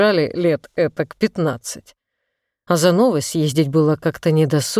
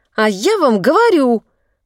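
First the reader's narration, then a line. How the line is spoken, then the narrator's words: Loud, piercing shrill. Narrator (Russian): Голос сделался громче, и визгливые ноты в нем резанули ухо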